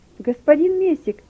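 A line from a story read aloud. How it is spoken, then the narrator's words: Shouting. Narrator (Russian): кричал он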